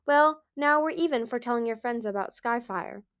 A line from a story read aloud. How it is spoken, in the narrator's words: Darksucker said cheerfully